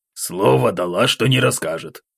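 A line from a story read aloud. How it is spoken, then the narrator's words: Grumbling. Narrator (Russian): проворчал граф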